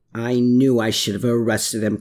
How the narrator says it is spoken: Klaus growled

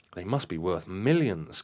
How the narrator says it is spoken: cried Marion in astonishment

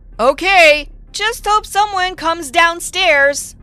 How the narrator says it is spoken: To give the boy a sign, I said loudly

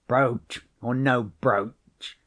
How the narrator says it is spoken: he growled sulkily

